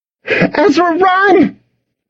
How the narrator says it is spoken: She screamed, her voice tinged with panic

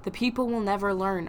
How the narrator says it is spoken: Arjun said savagely

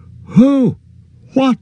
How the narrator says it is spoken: shouted Frodo

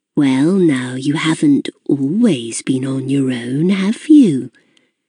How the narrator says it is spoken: She said, her voice sly, quiet

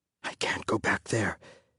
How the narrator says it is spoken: his father whispered

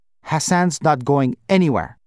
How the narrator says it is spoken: Baba snapped

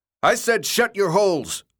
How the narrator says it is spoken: the dark boy yelled

